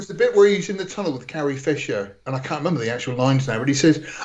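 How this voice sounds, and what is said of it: Usual voice. Nothing is said of it.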